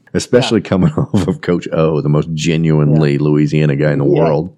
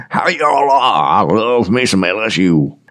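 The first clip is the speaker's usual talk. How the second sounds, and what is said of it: Brian Kelly's put-on Louisiana accent. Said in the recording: “Brian Kelly ... Adopts an accent when he takes up a job.”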